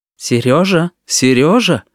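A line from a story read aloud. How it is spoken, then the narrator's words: Warning tone. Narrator (Russian): предупреждающим тоном сказала Татьяна Михайловна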